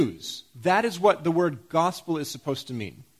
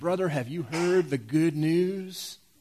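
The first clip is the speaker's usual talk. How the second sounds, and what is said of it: Put-on Southern preacher accent. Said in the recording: “You can kind of hear that southern preacher saying ... I'm not anti-Southern or anything ... Regardless of what accent you say it in”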